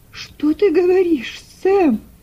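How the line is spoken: Terrified broken exclamation. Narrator (Russian): Прерывающимся голосом воскликнула миссис Шелби, чувствуя, как у нее подкашиваются ноги от ужаса

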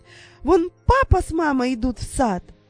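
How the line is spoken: Sudden exclamation. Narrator (Russian): Вдруг воскликнула Дженни

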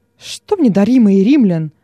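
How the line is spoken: Exclaimed. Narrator (Russian): воскликнул Нерон

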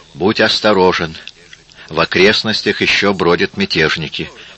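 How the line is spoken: Plain. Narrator (Russian): сказала Мария

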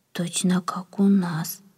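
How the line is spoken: Whisper. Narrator (Russian): прошептал кто-то

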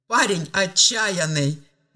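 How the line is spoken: Louder laughing. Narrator (Russian): рассмеялся он уже громче

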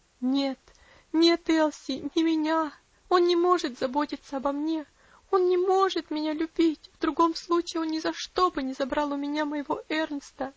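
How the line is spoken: Sobbing. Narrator (Russian): всхлипнула она

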